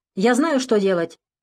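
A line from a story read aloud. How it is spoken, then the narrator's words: Barked from cabin. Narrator (Russian): рявкнул из первой кабины Вано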